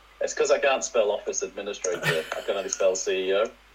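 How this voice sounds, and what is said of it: Put-on posh English accent. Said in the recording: “You sound a bit more northern than I do, though, because I'm putting on a posh accent.”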